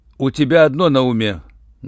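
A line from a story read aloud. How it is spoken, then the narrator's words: Rough reproach. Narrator (Russian): грубо укорил Руальд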